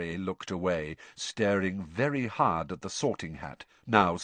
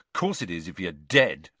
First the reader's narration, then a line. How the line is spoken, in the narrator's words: snapped Ron